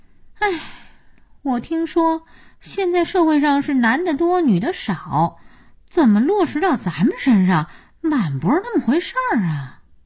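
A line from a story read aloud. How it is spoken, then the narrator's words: Sighing. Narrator (Chinese): 佳音叹气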